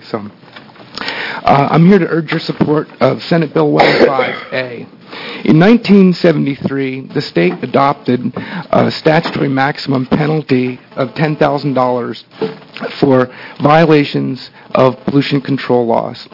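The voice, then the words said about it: Quiet, hoarse voice from laryngitis. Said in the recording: “I apologize if I'm not talking loud. I have a little bit of laryngitis”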